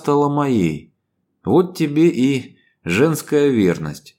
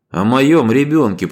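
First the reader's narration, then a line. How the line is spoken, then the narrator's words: Growled, male. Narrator (Russian): прорычал мужчина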